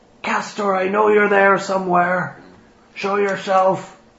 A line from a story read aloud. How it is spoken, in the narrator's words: he shouts out